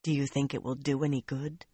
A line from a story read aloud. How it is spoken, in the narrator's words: Nynaeve asked quietly